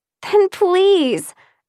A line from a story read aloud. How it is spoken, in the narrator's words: Elizabeth begged